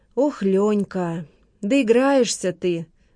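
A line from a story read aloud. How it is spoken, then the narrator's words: Sighing. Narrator (Russian): вздохнула Лола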